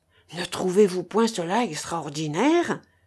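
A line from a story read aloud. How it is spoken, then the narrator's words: Murmuring woman. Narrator (French): murmura-t-elle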